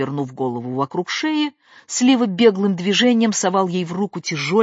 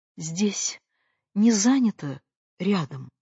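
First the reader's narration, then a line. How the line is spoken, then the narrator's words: Timid question. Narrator (Russian): робко спрашивала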